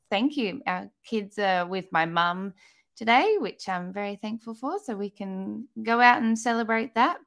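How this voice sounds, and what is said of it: Australian accent. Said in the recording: “By my accent, you can tell I am in Australia”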